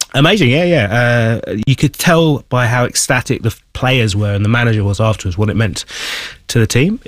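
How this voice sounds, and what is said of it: Hoarse, strained voice. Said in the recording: “as you can perhaps hear, shout myself hoarse. I haven't quite got the... Yeah. Vocal cords left ... the voice is a little bit hoarse.”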